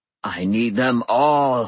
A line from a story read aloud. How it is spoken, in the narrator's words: thundered, in a voice that made my bones ache